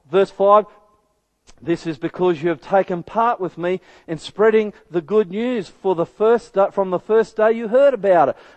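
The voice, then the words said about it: Slow, deliberate reading aloud. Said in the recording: “I'm reading this slowly.”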